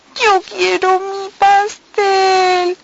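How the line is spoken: Sobbing. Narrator (Spanish): sollozaba Estela

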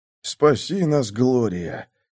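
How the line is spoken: Moaning priest. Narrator (Russian): простонал священник

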